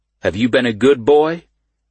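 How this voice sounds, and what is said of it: Deep voice. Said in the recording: “Deep voice. Deep motherfucking voice.”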